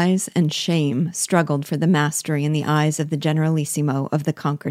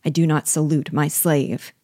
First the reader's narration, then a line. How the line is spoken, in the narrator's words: replied the carpenter